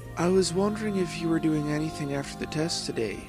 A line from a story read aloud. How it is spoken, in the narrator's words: Ray said quietly